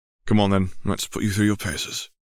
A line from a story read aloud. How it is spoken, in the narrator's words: he chuckled